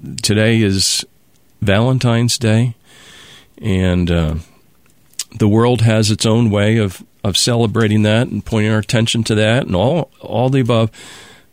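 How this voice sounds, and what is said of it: Voice affected by chest cold. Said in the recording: “I'm getting over a cold that's gone down into my chest. And so my voice is affected.”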